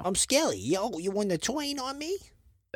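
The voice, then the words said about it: Put-on New York-style accent. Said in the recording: “the skeleton with the New York accent ... That's not a New York accent. ... a mix between like Jersey and Boston, maybe”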